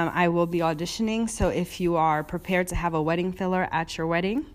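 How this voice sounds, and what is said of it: Usual voice. Nothing is said of it.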